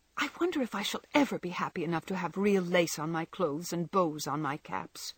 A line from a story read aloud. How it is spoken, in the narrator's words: said Meg impatiently